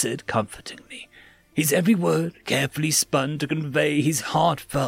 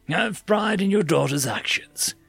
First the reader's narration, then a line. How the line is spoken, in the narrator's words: Thomas compassionately exclaimed